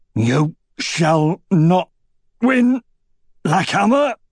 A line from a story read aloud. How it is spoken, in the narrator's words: grunted Bast